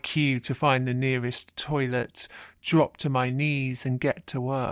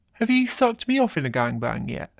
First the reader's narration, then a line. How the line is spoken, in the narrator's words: grinning as he says